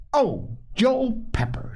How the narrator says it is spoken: she cried

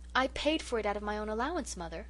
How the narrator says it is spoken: I exclaimed

